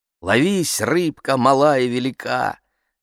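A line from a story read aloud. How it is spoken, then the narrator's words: Loud recitation. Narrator (Russian): Громко цитирую я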